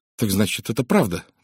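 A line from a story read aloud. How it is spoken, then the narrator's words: Exclaiming. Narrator (Russian): воскликнула она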